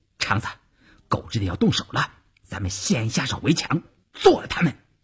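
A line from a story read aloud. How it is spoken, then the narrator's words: Low urgent voice. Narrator (Chinese): 邵月低声对前面的晋中人说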